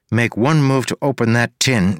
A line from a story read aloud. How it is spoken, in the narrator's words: said